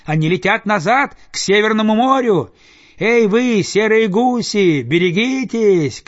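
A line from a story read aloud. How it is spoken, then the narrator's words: Distant shout. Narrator (Russian): кричал кто-то с другой стороны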